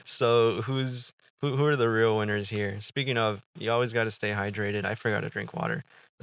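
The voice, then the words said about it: Slightly rough voice. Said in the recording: “my voice sounds a little rough”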